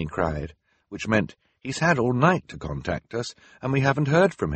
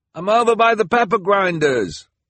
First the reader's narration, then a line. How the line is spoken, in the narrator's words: the delivery person called out in return